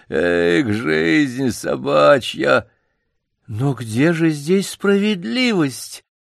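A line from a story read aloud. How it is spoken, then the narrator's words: Melancholy plaintive drawl. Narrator (Russian): Мышастый док с меланхолическим видом протянул плачевным голосом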